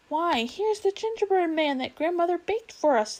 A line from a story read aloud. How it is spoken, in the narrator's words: they cried